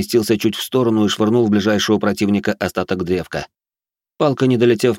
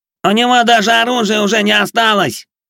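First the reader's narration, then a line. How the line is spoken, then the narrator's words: Shouted. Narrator (Russian): выкрикнул Плешивый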